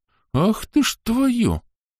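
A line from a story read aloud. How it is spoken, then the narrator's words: Stunned exhale. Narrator (Russian): ошеломленно выдохнул полковник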